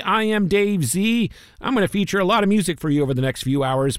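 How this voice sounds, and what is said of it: Slightly hoarse voice. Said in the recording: “My voice is getting a little hoarse. ... the voice just isn't there today.”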